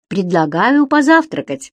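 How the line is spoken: Cheerful. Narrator (Russian): весело сказал Стоун

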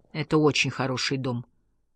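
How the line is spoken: Solemn, moved voice. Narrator (Russian): неожиданно торжественным голосом сказал он, глаза его увлажнились

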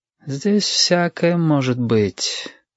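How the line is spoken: Sighing. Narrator (Russian): вздохнул Юрик

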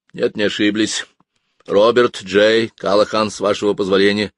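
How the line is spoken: High nervous chuckle, father. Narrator (Russian): хохотнул на высокой нотке отец, и для тех, кто его хорошо знал, это говорило о том, что мой отец нервничает, очень нервничает

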